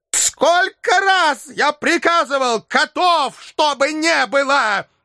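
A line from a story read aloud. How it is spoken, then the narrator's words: Furious shout. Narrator (Russian): в бешенстве закричал Филипп Филиппович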